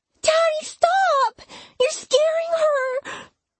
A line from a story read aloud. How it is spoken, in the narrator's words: Poppy cried